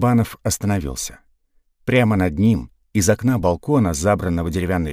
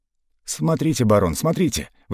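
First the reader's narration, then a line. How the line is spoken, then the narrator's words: Admiring babble. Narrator (Russian): восхищенно пролепетал Карабанов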